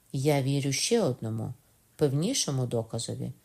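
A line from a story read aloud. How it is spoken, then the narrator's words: Plain. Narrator (Ukrainian): сказав Кокона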